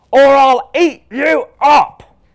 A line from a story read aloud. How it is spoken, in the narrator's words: shouted Louis